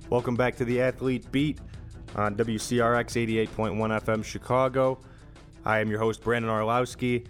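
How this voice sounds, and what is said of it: Deeper, hoarse sick-sounding voice. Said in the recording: “my voice sounds a little deeper, a little sexier, it's because I'm sick ... Holy cow, I do sound bad”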